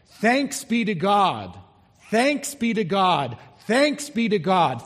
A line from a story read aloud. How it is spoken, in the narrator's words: they would loudly cry out